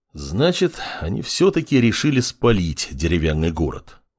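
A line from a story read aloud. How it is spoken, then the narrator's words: Sigh. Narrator (Russian): вздохнул он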